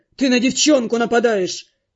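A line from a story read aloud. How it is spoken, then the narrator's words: Barked. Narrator (Russian): рявкнул водник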